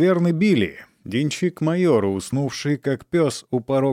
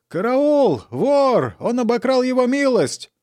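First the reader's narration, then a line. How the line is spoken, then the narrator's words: Yelling. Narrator (Russian): заорал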